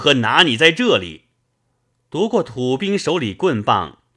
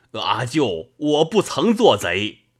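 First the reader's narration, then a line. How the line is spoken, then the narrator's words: Crying out. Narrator (Chinese): 那汉叫道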